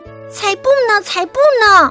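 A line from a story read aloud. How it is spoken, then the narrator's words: Shouting. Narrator (Chinese): 小鼹鼠喊道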